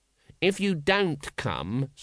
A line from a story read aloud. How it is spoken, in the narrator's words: said the guard